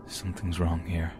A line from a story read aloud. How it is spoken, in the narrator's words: Under his breath, he said